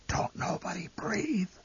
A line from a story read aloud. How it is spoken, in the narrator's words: The old man whispered hoarsely